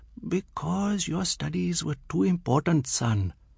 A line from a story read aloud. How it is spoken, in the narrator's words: His mother's voice whispering stoically